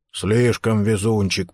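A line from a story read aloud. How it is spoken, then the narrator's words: Grumbling. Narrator (Russian): проворчал Ховард Карнс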